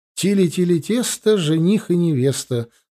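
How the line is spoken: Children's giggling teasing chant. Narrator (Russian): пропели несколько раз дразнилку мелкие ребятишки, оживленно хихикая

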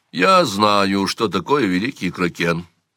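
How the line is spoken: Calm. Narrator (Russian): сказал он спокойно

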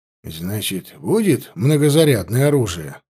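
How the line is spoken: Relieved sigh. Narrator (Russian): с каким-то облегчением вздохнул Василий

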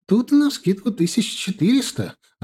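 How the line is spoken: Joyful. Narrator (Russian): радостно сказала Джоан

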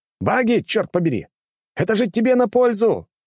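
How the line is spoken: Shouted after someone. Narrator (Russian): прокричал я ему вслед

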